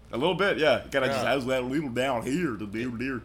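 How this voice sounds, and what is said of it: Goofy cartoon character voice. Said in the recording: “Where did you learn that Goofy accent?”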